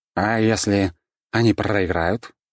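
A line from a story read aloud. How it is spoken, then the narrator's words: Slightly uncertain question. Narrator (Russian): немного неуверенно спросил кот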